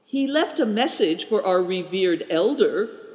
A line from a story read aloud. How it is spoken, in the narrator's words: cried Big Tiger